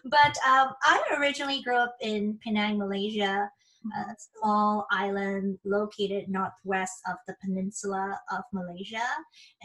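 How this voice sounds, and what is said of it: Non-American accent. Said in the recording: “as you can tell, I'm not from here. Obviously, I don't have the American accent.”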